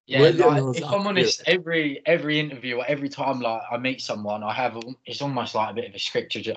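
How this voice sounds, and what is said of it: Essex English accent. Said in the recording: “from Essex, but you could probably tell that because of my accent”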